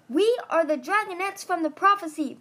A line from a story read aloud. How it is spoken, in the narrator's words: Viper yelled over the din